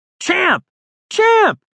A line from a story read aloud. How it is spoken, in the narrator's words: Juno shouted as loud as he could shout